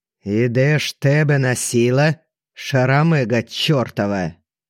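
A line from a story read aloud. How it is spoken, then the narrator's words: Menacing thunderous voice. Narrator (Russian): Грозно прогремела Галя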